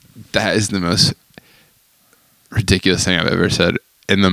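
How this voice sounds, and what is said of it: Usual voice. Nothing is said of it.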